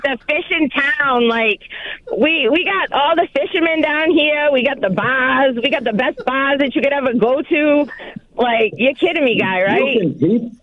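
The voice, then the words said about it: Boston accent. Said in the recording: “My accent knows no zip code, guy. ... I'm from Boston. ... This is respectful for Boston.”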